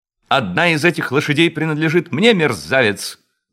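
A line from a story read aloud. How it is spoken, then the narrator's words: Shouted. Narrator (Russian): закричал он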